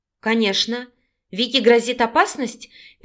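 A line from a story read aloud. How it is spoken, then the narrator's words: Worried exclamation. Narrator (Russian): переживая за подругу, воскликнула Наталья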